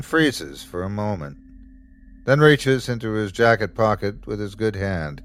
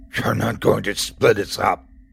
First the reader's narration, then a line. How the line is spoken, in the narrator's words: she growls